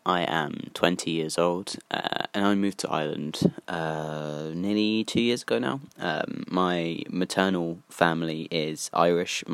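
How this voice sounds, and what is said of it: British accent. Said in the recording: “Because of my accent, I was seen as a Brit”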